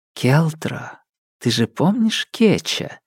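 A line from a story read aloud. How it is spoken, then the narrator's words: Whisper in ear. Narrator (Russian): шепнула мне на ухо Лирия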